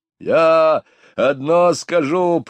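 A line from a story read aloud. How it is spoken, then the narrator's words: Growl. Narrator (Russian): прорычал Хэгби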